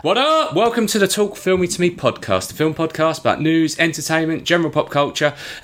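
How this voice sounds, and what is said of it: Hoarse voice. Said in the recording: “I'm a little bit under the weather. I've got a cold. My throat is very, very hoarse.”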